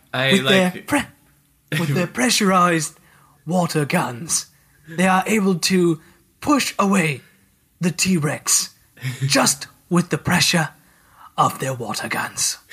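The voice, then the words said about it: Put-on British accent. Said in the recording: “I'm so bad at British accents. ... That was that was perfect. ... especially when my voice is going.”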